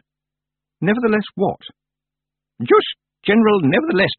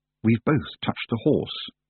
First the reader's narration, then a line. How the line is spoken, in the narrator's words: she said under her breath